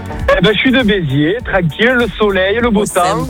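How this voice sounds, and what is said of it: Regional accent from Béziers. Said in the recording (French): “Il a repris l'accent immédiatement après avoir dit Béziers.”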